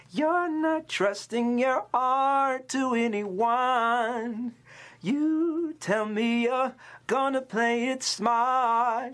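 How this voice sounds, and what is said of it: Sung imitation of a female singer. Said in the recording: “She kind of accentuates certain vowels. ... I don't know if that was the best impersonation”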